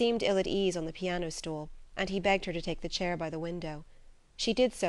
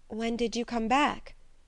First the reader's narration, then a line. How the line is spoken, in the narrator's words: asked Edna in an unsteady voice